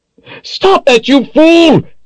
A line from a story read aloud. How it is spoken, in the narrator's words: yelled as he raced to complete his drawing